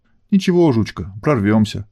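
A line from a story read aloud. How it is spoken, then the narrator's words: Uncertain. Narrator (Russian): неуверенно проговорила Альфа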